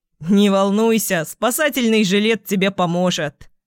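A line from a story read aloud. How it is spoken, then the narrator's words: Chuckling. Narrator (Russian): хохотнул Феликс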